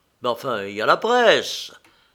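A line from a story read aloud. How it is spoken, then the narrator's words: Exclamation. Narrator (French): s'exclama Watson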